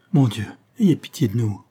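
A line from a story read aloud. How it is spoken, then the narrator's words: Sobbing. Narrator (French): sanglota Ursule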